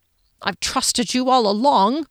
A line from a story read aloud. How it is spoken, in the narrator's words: Phoenix muttered